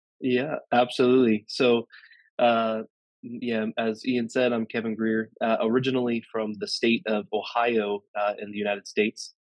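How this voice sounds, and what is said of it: American accent, not English. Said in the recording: “as you can tell by ... accent, he's not from Middlesbrough or even England”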